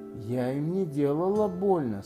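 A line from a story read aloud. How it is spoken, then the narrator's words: Guilty voice. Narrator (Russian): сказала Алиса виноватым голосом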